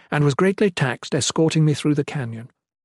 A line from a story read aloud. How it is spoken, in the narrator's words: the Shalane quickly explained